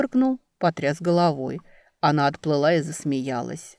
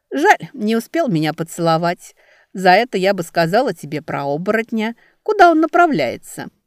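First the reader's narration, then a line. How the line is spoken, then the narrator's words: Laughing lake maiden. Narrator (Russian): Смеясь, продолжала озерница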